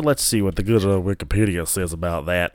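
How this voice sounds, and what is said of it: Put-on Southern US accent. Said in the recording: “I just did a fucking southern accent.”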